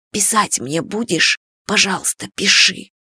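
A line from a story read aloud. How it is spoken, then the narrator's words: Drunken whisper. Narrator (Russian): Иван пьяно шептал им на ушки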